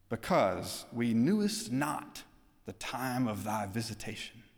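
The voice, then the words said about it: Archaic King James style voice. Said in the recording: “in his King James Version accent”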